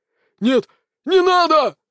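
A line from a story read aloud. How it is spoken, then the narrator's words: Shouting. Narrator (Russian): закричал царь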